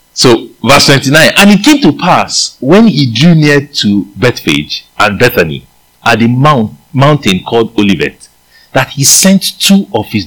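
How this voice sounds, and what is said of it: Nigerian-accented English. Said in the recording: “I might be using my Nigerian accent”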